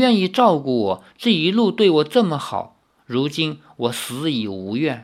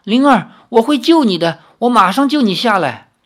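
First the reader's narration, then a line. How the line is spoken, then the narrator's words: Loud. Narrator (Chinese): 李逍遥 大声说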